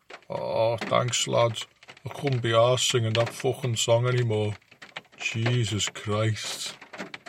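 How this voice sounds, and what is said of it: Whispered Scouse accent. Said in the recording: “in his Scouse accent, whisper,”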